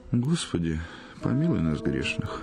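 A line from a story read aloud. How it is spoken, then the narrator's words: Sighing. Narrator (Russian): вздохнул благолепный Сергей Сергеевич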